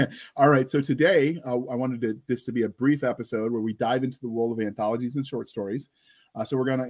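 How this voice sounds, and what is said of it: Usual voice. Nothing is said of it.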